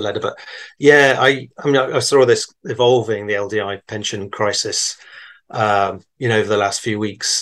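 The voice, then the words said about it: English accent. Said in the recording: “from England as well, based on his accent.”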